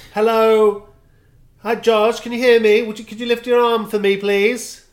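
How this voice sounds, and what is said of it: Paramedic voice for drunk people. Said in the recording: “They'd do the voice that paramedics and policemen do to drunk people or people who are barely conscious.”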